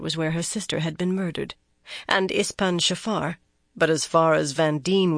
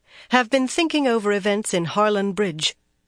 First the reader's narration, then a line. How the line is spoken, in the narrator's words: Van Deen went on more firmly